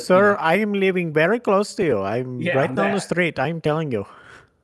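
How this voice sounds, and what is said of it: Put-on thick Indian accent. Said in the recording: “they have a really thick Indian accent”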